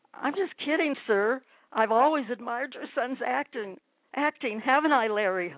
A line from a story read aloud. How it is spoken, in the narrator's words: begged